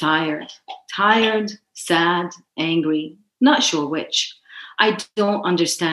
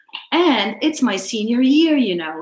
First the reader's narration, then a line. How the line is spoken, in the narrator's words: she exclaimed